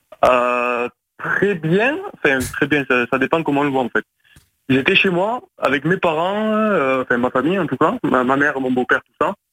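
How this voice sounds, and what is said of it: Marseille French accent. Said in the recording (French): “T'es un Marseillais ? ... petit accent et tout”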